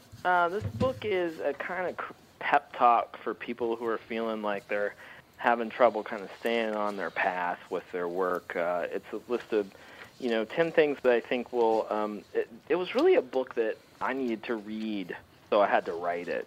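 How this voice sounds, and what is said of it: Very young-sounding voice. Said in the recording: “you sound like you're about 15 years old ... you sound very young”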